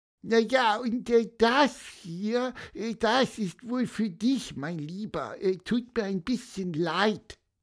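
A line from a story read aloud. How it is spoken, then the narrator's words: Squeaky. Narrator (German): piepste Pieper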